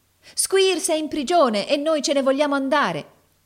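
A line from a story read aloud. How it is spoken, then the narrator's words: Chorus of ringing voices. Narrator (Italian): esclamò un coro di voci squillanti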